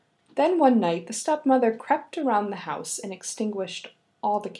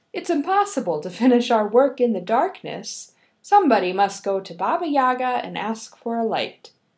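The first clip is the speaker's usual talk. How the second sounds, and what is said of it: Loud voice, stepmother character. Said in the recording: “in a loud voice”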